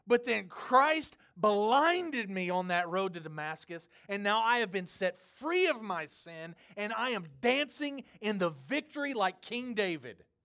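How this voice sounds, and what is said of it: Impersonated enthusiastic preacher voice. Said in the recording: “I'm impersonating Paul”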